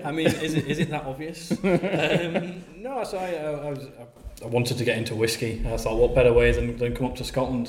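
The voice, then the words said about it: Northern English accent. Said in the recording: “I'm not, judging not by that ... accent ... Coming from the north of England ... Barnsley”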